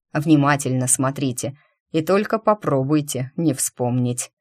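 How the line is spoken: Mock-stern, secretly amused. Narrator (Russian): добавил грозно

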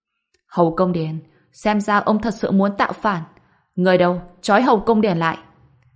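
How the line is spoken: Angry. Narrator (Vietnamese): Thạch Sương Huy tức giận nói

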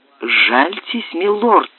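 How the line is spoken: Pleading voice. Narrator (Russian): умоляющим голосом еще раз сказал слуга

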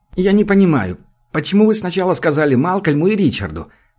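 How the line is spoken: Hurt repetition. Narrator (Russian): повторил он обиженно

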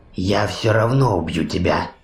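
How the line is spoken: Whisper. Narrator (Russian): прошептал Рекс

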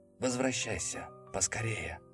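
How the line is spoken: Soundless whisper. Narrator (Russian): прошептал я одними губами

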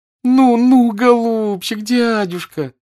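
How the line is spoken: Desperate pleading moan. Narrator (Russian): таким умоляющим голосом застонала Наташа, как будто жизнь ее зависела от этого

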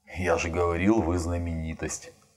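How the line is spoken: Muttered. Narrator (Russian): бормочет Самчай

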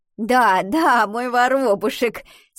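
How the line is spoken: Laughing. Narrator (Russian): смеялась Альвина

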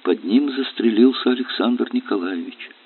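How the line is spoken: Quiet old woman. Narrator (Russian): Бабушка Полина тихо сказала

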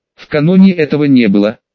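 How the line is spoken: Snake shouting. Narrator (Russian): закричала змея

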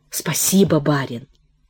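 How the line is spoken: Quiet, hopeless. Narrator (Russian): Он произнес это тихо, совсем не надеясь, что Протасов услышит его голос

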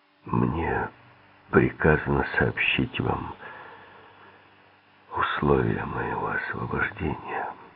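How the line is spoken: Hoarse voice. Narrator (Russian): хриплым голосом сказал Тиссо

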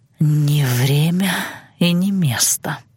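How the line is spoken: Hoarse broken whisper. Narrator (Russian): хрипло прошептал Александр, прерываясь

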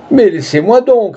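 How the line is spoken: Shouted. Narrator (French): cria-t-il

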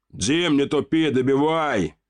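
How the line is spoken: Demon's shout. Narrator (Russian): крикнул демон

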